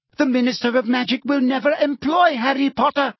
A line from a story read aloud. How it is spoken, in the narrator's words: said Umbridge, her voice rising furiously